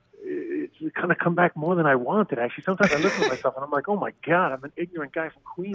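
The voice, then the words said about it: New York accent. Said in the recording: “I find my New York accent coming back, which, I mean, I always had a bit of it”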